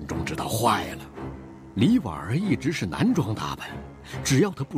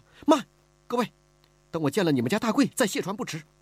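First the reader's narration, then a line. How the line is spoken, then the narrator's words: Anxious, urgent. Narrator (Chinese): 李婉儿急了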